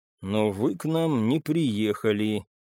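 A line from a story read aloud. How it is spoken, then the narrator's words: Quiet. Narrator (Russian): тихо сказал очевидное я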